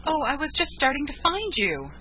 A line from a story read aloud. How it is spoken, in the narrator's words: she cried